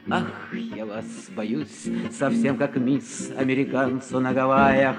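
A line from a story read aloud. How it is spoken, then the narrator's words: Whispering. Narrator (Russian): Она шептала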